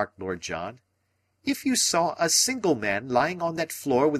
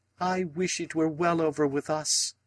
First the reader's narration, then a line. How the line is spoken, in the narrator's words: said the lady wistfully